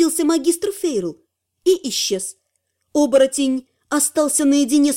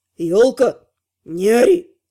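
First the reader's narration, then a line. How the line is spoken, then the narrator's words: Growling. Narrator (Russian): Рыкнул Эвин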